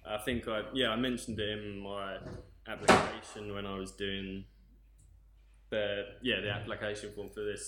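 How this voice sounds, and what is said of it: British accent. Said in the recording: “from your accent, you're from Britain”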